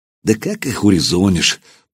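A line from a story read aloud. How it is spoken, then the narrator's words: Mutter. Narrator (Russian): пробормотал Ладовлас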